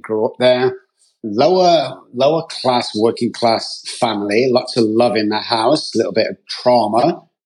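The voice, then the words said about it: Manchester English accent. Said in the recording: “as you can tell by my accent ... I'm from Manchester, United Kingdom”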